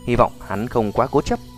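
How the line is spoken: Tense muttering. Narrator (Vietnamese): sắc mặt xanh xám, quyền nắm chặt lầm bầm nói

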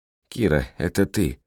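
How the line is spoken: Mutter. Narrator (Russian): пробормотала Джоанна

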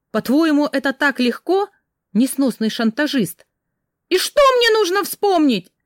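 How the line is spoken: Irritated, desperate shout. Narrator (Russian): С раздражением и отчаянием выкрикнула я

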